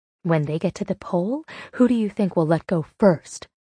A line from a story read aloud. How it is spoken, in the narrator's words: Meg whispered into my ear